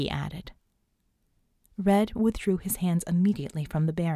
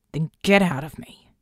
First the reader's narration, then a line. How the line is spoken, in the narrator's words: he snarled